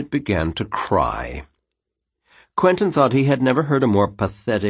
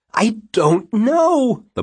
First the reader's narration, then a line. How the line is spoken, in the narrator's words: the blackbird wailed